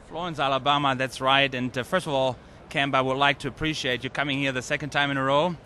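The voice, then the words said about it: Slight German accent. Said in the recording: “you do have a little bit of an accent. You're basically a German.”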